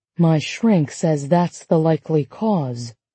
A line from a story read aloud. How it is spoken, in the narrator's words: Margaret lowered her voice to add